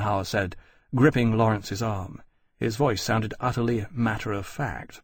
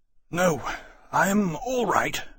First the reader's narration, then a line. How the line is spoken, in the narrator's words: Granby said hoarsely